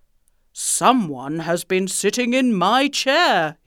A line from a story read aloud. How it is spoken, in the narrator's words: roared